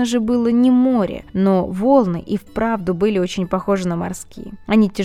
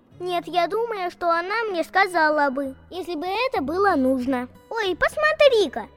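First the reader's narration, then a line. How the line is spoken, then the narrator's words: Delighted child's squeal. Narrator (Russian): Вдруг неожиданно в восторге запищала малышка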